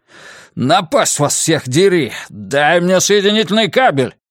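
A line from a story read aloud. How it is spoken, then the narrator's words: Bark. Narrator (Russian): рявкнул он месье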